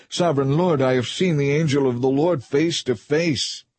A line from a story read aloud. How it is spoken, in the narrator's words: he cried out